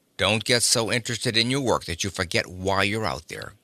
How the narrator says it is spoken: growled Stetson

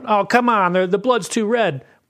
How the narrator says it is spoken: the guy yells out

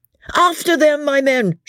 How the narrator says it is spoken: shouts the captain, he said after a while

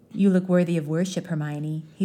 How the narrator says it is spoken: he said softly

